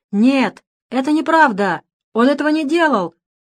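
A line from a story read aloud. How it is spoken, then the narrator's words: Shouting across the hall. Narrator (Russian): заорал на весь зал Дэвид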